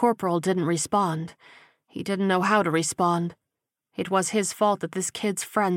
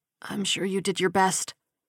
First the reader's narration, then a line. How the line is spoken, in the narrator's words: The young man let out a whoosh of breath and then said hoarsely